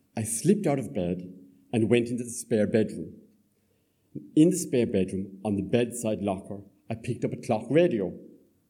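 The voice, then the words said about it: Soft southern Irish Cork accent. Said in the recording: “a softer southern sound... my Cork accent”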